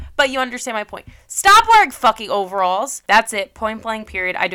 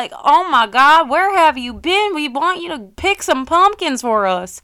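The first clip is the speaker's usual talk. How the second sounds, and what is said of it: Failed attempt at country accent. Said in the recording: “I don't know what accent that was. I was trying to do country. It did not work.”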